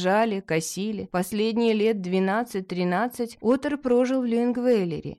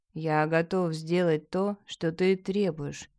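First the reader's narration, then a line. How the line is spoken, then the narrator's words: Quiet but firm. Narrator (Russian): тихо среди напряженной тишины, но твердо сказал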